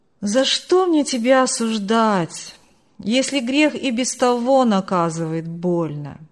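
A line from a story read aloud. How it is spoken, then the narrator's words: Calm continuation. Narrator (Russian): Спокойно продолжил Марк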